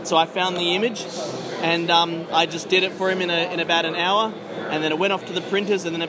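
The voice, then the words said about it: Australian accent. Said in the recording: “Love your accent, by the way. ... I'm from Western Australia”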